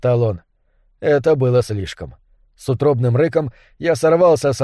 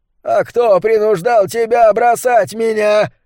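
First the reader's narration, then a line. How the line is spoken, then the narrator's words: Shouted in face. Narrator (Russian): закричал он мне в лицо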